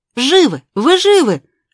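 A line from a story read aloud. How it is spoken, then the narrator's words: Joyful shouting. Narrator (Russian): радостно кричал он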